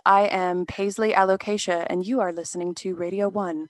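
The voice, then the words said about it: Smooth public-radio announcer voice. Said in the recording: “radio voice ... This is my NPR voice.”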